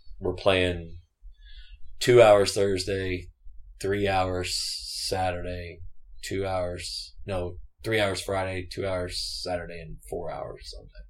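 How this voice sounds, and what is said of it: Slightly strained voice. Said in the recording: “so my voice is a little strained from the weekend”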